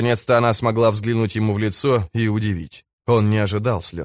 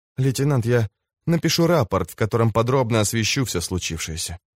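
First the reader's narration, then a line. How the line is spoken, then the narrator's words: Whispered. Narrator (Russian): прошептала она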